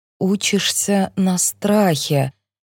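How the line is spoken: Slow repetition. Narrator (Russian): медленно повторяю я

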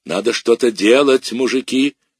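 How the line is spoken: Roaring. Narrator (Russian): взревела она

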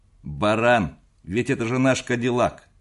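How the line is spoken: Barked. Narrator (Russian): рявкнул Ленц

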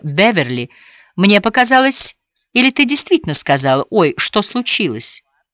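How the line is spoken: Strained laugh, then speaking. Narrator (Russian): Миссис Эймори натужно рассмеялась и, покачав головой, проговорила

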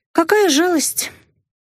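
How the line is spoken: Insincere sigh. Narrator (Russian): вздохнула я неискренне

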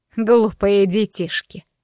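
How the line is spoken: Scoffing. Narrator (Russian): хмыкнула свекровь

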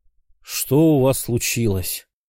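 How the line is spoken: Tired question. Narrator (Russian): устало поинтересовался у пророков Сойкин

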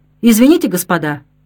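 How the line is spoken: Rude joking tone. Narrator (Russian): грубо сострил Кейтель

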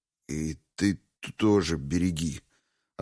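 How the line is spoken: Confused mutter. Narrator (Russian): растерянно пробормотал он ей вслед

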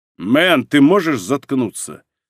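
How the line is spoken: Commanding voice. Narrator (Russian): сказал ему доктор Харрис командирским голосом

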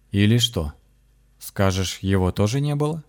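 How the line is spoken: Sly question. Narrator (Russian): Настолько лукаво спросил у Михаила шаман

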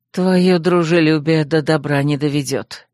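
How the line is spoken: Grumbling. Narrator (Russian): проворчал Земка

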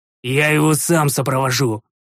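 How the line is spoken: Furious growl. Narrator (Russian): рыкнул я, приходя еще в большую ярость

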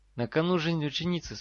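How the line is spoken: Calm voice. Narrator (Russian): спокойным голосом продолжил Гарри

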